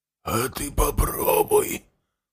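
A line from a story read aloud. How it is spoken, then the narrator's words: Hoarse fugitive. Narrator (Russian): прохрипел беглец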